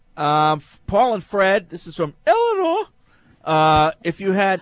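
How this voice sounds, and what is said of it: Put-on high-pitched voice. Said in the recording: “what accent is that? ... It's just a high pitch. ... she talked like this.”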